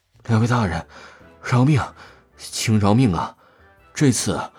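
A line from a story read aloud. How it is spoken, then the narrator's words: Frightened trembling plea. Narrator (Chinese): 那长老神情恐慌，颤声道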